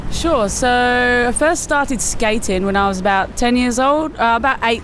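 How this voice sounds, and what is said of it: English West Midlands accent. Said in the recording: “gathering from your accent, you're from a little bit further north than Gawler ... I'm from Solihull in the UK ... Birmingham ... West Midlands”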